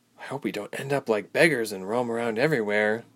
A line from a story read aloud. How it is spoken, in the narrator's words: Ilse murmured